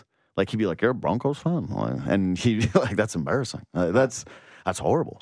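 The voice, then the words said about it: Put-on accent impression. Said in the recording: “best accent impression I've ever heard”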